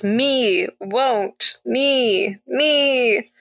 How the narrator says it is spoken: Bill slash Janet groans

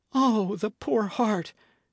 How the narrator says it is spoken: cried Matcham

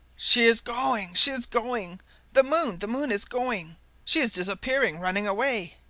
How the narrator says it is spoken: cried in a choked voice

